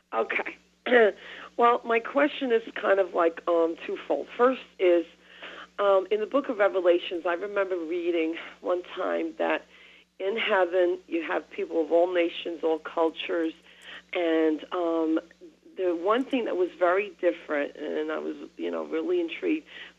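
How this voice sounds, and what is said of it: Sore, slightly rough throat. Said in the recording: “I have a bit of a sore throat.”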